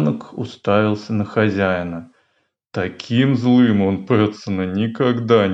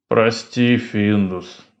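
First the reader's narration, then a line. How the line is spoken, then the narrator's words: Tired. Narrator (Russian): устало сказал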